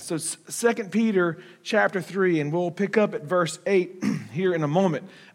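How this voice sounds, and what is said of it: Strained, worn-out voice. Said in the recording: “You have to forgive my voice. I'm not sick.”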